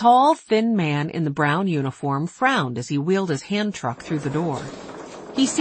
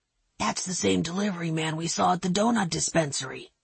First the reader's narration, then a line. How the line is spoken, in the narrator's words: whispered Henry